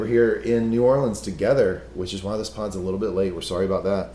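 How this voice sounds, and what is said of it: Strained tired voice with vocal fry. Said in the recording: “I don't sound the normal baritone that you normally get from ... is not there. I'm struggling. ... The vocal fry that you're hearing right now, not put on ... We're just all kinds of burned out”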